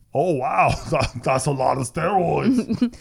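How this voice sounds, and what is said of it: Imitates another person's voice. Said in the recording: “That's a pretty good impression. ... Pretty good Arnold.”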